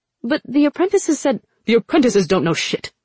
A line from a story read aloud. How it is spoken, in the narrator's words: Jung snapped